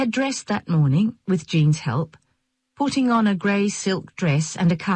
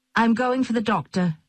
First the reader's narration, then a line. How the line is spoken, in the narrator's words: Jean said